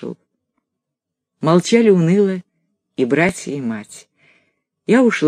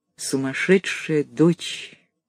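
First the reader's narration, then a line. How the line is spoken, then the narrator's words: Quiet. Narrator (Russian): Он тихо сказал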